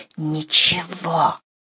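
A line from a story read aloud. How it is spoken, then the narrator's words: Breathy whisper. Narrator (Russian): одним придыханием ответила Катерина Львовна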